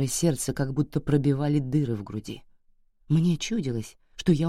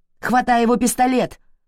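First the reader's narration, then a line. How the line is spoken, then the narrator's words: Shout. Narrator (Russian): крикнула Блю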